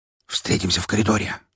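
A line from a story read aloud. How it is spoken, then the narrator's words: Whispered. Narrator (Russian): шепнул я ему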